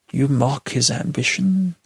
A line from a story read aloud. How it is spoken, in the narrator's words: Caslow sighed